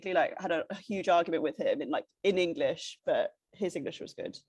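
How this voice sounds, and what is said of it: Usual voice. Nothing is said of it.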